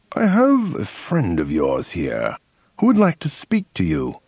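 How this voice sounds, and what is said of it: Very formal voice. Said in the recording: “in a very formal voice”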